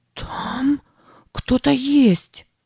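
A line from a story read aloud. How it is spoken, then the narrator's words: Breathless gasp. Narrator (Russian): выдохнула она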